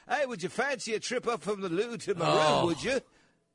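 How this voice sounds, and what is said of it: Put-on English accent. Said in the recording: “faking an English accent ... Then you're back to English.”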